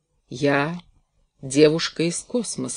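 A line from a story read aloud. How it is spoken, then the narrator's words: Slow speech. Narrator (Russian): сказала она медленно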